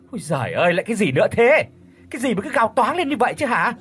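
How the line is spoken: Startled woman snapping. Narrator (Vietnamese): Mụ Thơ giật mình kinh hãi, đoạn quay vội lại gắt lên

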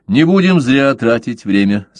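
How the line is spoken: Sharp. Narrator (Russian): сказал он резко

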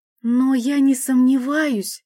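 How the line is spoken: Uncertain exclamation. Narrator (Russian): неуверенно воскликнула

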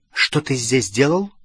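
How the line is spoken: Stern question. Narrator (Russian): строго спросила Гермиона

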